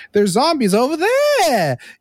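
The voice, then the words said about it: High-pitched imitation of another person. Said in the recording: “the like Mark Wahlberg high pitch”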